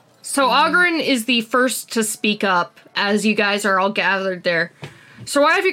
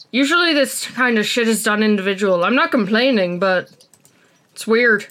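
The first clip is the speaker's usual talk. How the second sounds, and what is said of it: Put-on Scottish accent. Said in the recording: “I'm gonna end up giving him a Scottish accent, aren't I? ... I'll go full Scott.”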